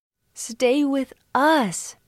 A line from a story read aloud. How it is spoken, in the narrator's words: they begged